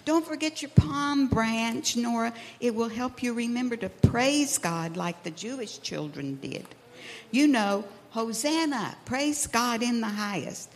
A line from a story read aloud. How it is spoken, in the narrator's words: Theo yelled